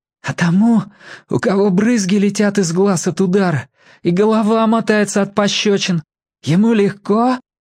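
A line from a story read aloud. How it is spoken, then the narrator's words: Hoarse question. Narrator (Russian): хрипло спросил Федя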